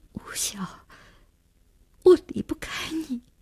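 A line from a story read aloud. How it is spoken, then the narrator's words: Choked sob. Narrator (Chinese): 只哽咽了一句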